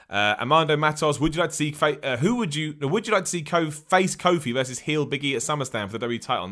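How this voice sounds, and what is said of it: English accent. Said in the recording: “I'm in England, man. I'm rocking here in the UK. Hopefully my accent gave that away”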